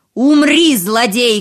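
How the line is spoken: Shout. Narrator (Russian): крикнул султан

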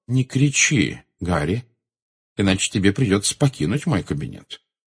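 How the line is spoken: Calm. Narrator (Russian): спокойно произнес Дамблдор

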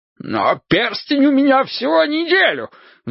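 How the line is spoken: Shrill squeal. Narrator (Russian): взвизгнул Борис Ильич

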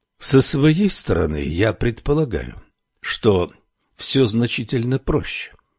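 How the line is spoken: Calm. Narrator (Russian): спокойно заговорил Аджудан

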